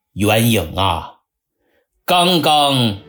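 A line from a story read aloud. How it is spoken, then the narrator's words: Cold suppressed anger. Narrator (Chinese): 他强压怒火，冷冷地问了句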